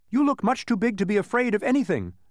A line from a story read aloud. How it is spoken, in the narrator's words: said Milo quickly